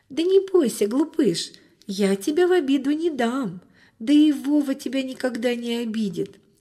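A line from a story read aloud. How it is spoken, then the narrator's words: Laughing, soothing girl. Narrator (Russian): засмеялась девочка, успокаивая питомца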